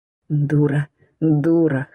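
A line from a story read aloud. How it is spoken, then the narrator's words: Hoarse rasp at climax. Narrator (Russian): хрипит, изливаясь в меня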